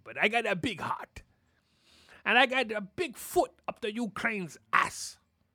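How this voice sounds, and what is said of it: Nasally put-on Russian accent. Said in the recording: “my accent is like this. It's probably a little bit more nasally... my Russian accent is a little nasally”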